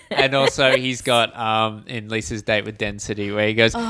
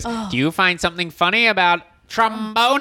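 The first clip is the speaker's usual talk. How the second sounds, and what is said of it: Imitates a cartoon character's voice. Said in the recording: “that was a really good impression. That was bang on.”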